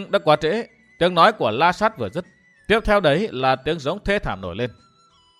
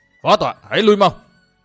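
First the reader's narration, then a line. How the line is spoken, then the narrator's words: Sudden loud shout. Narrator (Vietnamese): La Sát đổi giọng quát to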